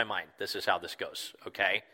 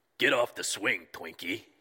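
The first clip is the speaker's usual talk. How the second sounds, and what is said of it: Grunting Brooklyn construction worker accent. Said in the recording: “he grunts, probably in like Brooklyn construction worker accent”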